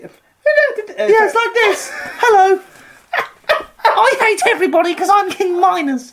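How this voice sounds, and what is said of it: Angry childlike monster character voice. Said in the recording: “He sounds like, you know when Mr. Burns got turned to that alien monster in The Simpsons? ... You sound like a really angry child.”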